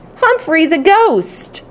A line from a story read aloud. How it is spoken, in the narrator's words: I continued to squeak my heart out